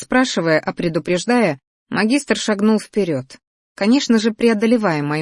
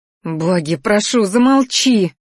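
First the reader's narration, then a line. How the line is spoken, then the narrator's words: Inward moan. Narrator (Russian): Застонала мысленно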